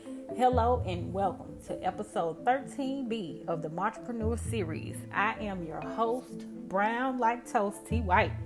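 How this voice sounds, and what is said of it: Southern US country twang. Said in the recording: “y'all hear this country twang”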